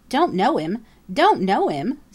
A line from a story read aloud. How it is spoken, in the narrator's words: sputtered Jenny